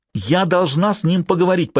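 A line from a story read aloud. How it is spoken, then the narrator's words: Near shout. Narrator (Russian): почти выкрикнула Эудженя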